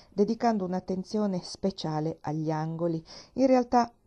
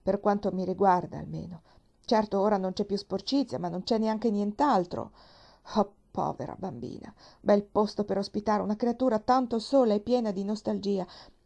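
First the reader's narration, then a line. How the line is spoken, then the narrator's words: Said with a sigh. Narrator (Italian): disse con un sospiro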